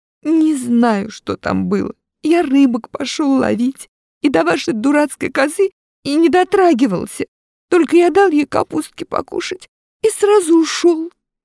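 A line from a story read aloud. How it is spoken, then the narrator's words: Tearful. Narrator (Russian): Минька сквозь слезы говорит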